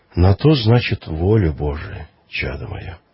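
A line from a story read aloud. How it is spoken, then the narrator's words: Calm reply, priest. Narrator (Russian): Священник же спокойно отвечал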